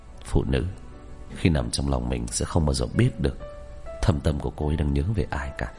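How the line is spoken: Muttering. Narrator (Vietnamese): Hắn lẩm bẩm

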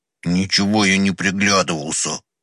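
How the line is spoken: Angry grumble. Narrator (Russian): сердито пробурчал в ответ Федюнька

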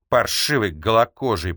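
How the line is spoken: Grumbling. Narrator (Russian): проворчал Рейчис

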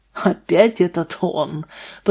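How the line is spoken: Grumbling. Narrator (Russian): пробурчал Вальтер

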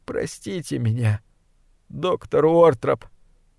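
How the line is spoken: Whimpering. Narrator (Russian): прохныкал

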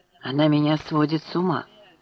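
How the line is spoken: Tender, husky voice. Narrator (Russian): сказал Гай все тем же нежно-хрипловатым тоном

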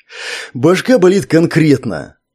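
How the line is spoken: Sad. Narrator (Russian): грустно произнес комедиант

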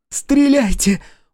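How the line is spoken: Horrified breathless gasp. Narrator (Russian): в ужасе выдохнула Василиса

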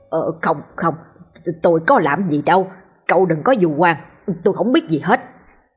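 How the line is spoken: Flustered hurried speech. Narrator (Vietnamese): Ông ta rối rít

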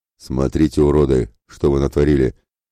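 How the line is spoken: Pleased deep bass voice. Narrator (Russian): пробасил довольным голосом Ратибор

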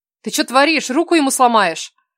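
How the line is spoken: Reflexive shout. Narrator (Russian): На автомате выкрикнула Кира

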